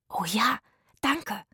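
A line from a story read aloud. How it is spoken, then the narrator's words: Whispering together. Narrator (German): flüsterten Zora, Itzig und Rufus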